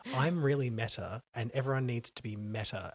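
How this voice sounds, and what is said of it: Vapid American accent imitation. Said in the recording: “in like a vapid American accent.”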